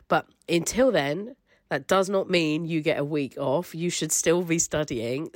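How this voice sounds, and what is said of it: Sick voice with a cold. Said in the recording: “as I'm sure you can hear from my voice, I am not feeling very well this week ... hopefully this is just a nasty cold”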